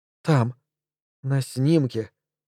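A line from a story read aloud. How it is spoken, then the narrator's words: Quiet. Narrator (Russian): тихо проговорила она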